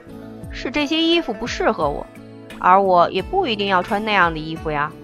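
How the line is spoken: Displeased. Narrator (Chinese): 颜回十分不悦，起身道

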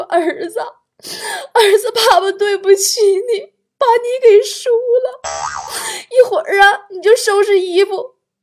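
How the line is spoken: Sobbing. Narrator (Chinese): 强子他老爸，抱头痛哭，说

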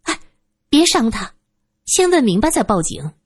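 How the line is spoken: Hurried interjection. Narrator (Chinese): 苏三急忙跟上一句

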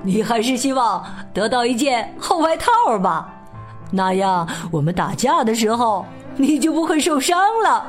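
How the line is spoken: Loud, laughing. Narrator (Chinese): 笑着大声说

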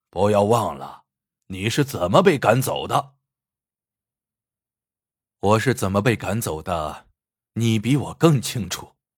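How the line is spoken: Angry mocking. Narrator (Chinese): 胖六恼羞成怒，讥讽的说

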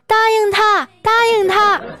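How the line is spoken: Shouting. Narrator (Chinese): 喊

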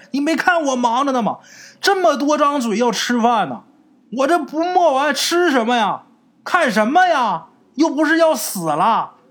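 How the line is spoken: Shouting without turning. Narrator (Chinese): 他妈头都没回就喊了一声

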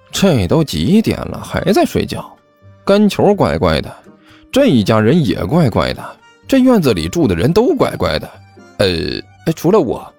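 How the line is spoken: Low muttering. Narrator (Chinese): 齐健低声嘀咕了一句

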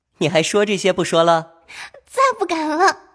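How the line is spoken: Laughing question. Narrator (Chinese): 宝玉笑问道

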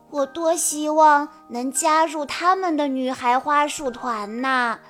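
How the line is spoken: Soft sigh. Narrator (Chinese): 波比 轻轻地叹了一口气，对哈尼说

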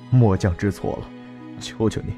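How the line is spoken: Choked voice. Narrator (Chinese): 李峰语带哽咽道

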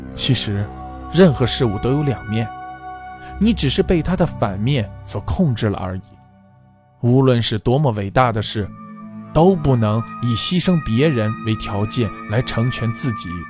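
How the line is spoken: Sighing. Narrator (Chinese): 我叹了口气说

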